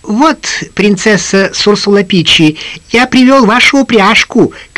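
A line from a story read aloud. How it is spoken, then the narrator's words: Squeaky shout. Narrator (Russian): крикнул водяной писклявым голоском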